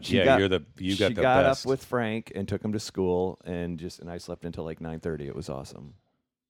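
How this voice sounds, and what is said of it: Slightly hoarse, worn-out voice. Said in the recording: “How is this for a voice that's been talking for 72 hours straight? ... You're hoarse. ... I am a little hoarse,”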